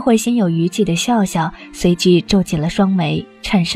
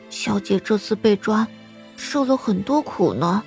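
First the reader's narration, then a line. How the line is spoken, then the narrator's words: Sigh, slow mature tone. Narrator (Chinese): 心落全不似小孩般叹了口气，良久才道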